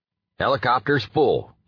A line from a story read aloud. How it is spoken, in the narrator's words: he barked at the Ranger